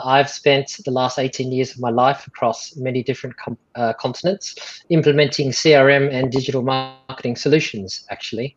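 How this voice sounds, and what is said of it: Non-local foreign accent. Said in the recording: “You can probably tell from my accent that I'm not from around here.”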